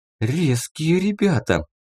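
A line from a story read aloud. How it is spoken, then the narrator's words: Breathed out. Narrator (Russian): выдохнула Рина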